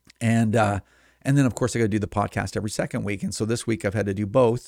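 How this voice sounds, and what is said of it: Strained, fading hoarse voice. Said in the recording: “I'm losing my voice because I'm having to do the television show every week”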